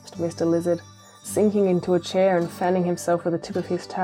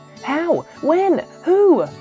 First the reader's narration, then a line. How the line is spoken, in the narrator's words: asked Snugglepot very excitedly